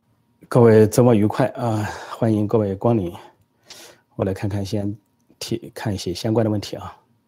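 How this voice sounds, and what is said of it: Mandarin with a Sichuan accent. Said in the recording (Chinese): “听老师讲国语，像我们四川人的口音，听起来很亲切”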